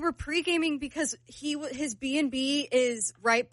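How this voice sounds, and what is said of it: Usual voice. Nothing is said of it.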